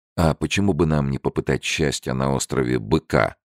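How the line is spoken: Plain. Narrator (Russian): спросил Фрэнсис

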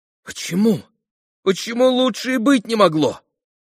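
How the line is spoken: Surprised exclamation. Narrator (Russian): воскликнула Лиз, с большим удивлением

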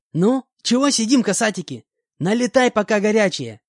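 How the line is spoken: Cheerful shout. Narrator (Russian): крикнула Лариса Ивановна

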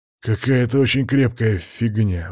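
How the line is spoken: Sigh. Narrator (Russian): вздохнул Макс

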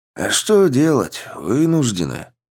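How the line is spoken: Glum sigh, old man. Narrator (Russian): уныло вздохнул дед

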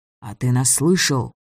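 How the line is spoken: Whispered question. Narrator (Russian): также шепотом спросил Митяй

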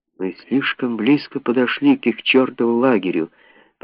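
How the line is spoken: Whisper after coughing. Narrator (Russian): прошептал он, справившись с кашлем

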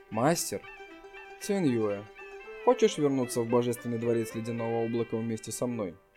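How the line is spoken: Soft respectful voice. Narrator (Russian): Ся Циньюэ мягким голосом сказала с уважением

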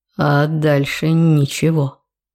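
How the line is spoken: Mesmerizing heavy voice. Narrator (Russian): отвечает своим завораживающе тяжелым голосом

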